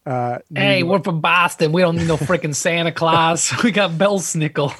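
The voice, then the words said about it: Put-on Boston accent. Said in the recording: “my Boston accent”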